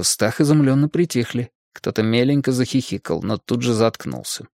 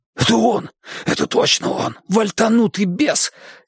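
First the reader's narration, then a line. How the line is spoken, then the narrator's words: Young man's hoarse whisper. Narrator (Russian): сипел на ухо престарелому седоволосому бормену парень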